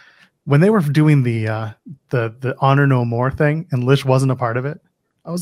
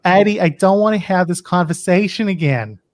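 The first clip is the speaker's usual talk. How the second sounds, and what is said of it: Thick Boston accent. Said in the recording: “she's got like a thick Boston accent.”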